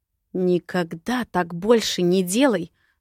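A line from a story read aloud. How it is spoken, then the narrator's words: Hissed. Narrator (Russian): Зашипела на Виктора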